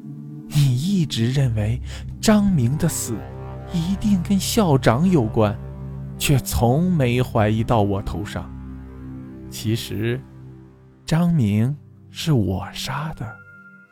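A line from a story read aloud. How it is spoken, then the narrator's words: Slow, deliberate. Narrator (Chinese): 他已经缓缓开口，说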